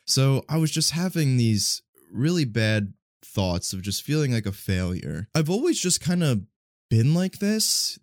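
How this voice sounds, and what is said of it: Slightly congested voice. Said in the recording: “my voice sounds a little off, I'm not sick, but I do just feel like a slight bit congested”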